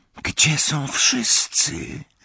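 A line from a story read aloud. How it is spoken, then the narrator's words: Whispered. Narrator (Polish): szepnęła Hermiona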